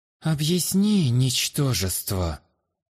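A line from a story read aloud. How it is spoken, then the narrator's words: Haughty, through teeth. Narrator (Russian): высокомерно процедил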